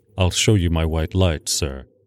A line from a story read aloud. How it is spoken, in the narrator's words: he said in his peculiar low voice